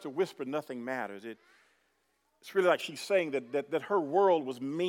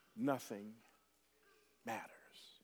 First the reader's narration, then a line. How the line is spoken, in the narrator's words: quietly said to me with tears streaming down her eyes